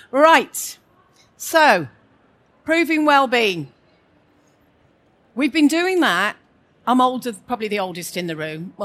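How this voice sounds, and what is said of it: West Midlands regional accent. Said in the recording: “Welcome to the West Midlands. I'm homegrown, so if you need to have subtitles, wave at me now if you don't understand the accent”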